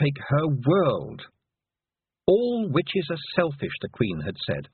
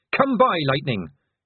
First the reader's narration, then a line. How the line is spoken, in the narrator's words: shouted Tiffany